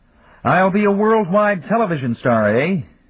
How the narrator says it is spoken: tried to make himself laugh

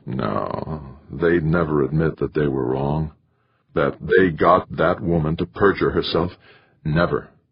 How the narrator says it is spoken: half hiding his face, Carlton replied in a low, strained voice

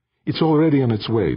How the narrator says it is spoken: Defia answered

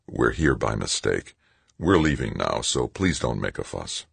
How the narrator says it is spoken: Stoner said softly

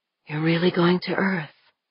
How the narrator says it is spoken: asked in a whisper

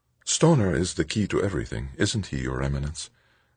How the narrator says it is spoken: Angelique murmured, her voice and face showing proper humility

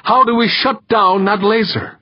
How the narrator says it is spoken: He shouted

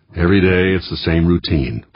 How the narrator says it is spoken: Vyborg grumbled to himself

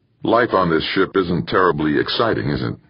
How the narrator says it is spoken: he said

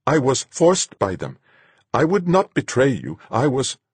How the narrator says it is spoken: Sanja said, his voice shaking

